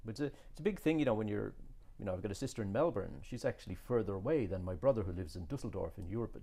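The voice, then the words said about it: Irish accent. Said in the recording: “You still have your Irish accent.”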